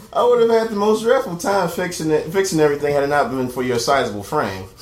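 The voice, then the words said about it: Dignified, formal character voice. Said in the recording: “in a most dignified voice”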